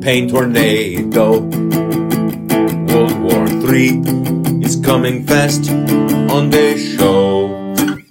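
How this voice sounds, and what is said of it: Put-on Russian accent. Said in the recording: “doing a Russian accent”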